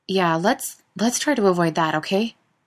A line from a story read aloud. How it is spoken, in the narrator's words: Jared laughed nervously